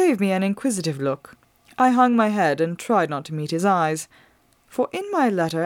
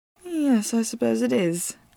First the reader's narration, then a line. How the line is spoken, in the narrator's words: I mumbled